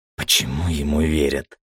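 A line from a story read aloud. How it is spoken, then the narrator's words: Whispered question. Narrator (Russian): Шепотом спросила Кари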